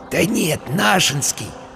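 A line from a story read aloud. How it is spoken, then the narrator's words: Whisper in ear. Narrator (Russian): шепнул ему на ухо Вася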